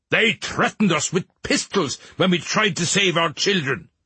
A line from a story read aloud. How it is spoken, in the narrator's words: a man cried